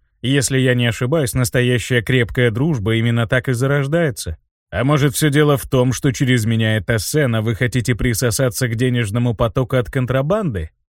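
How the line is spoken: Cold. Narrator (Russian): холодно произнес Винсан

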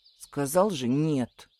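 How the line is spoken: Muttered. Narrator (Russian): буркнул Кириан

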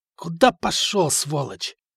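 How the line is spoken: Hoarse voice from behind. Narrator (Russian): услышав за спиной хриплый голос

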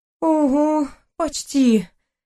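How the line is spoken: Sighing. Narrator (Russian): вздохнула она

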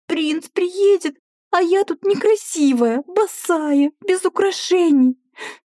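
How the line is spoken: Sobbing young woman. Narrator (Russian): Вновь всхлипнула девушка

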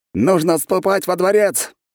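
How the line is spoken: Shouting guard captain. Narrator (Russian): выкрикнул капитан стражи

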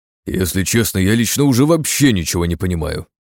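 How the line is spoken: Exclaiming. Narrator (Russian): воскликнул Синицын

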